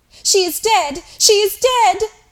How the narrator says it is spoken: screamed Mary

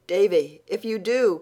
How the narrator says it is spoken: cried Anne, realizing her mistake

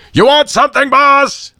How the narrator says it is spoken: boomed

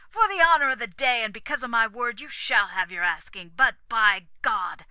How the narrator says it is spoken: added through his teeth

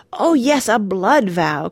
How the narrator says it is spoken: cried Randy with a rapturous leap

